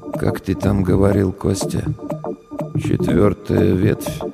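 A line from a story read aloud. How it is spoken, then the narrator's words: Very quiet. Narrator (Russian): Очень тихо сказал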